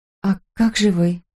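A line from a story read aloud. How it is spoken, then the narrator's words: Strained, forced out. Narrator (Russian): выдавил я наконец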